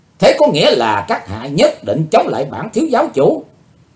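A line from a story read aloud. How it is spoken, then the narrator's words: Loud angry shout. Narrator (Vietnamese): hắn quát to lên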